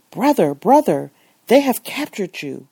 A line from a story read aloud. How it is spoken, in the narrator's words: the excited Moroccan exclaimed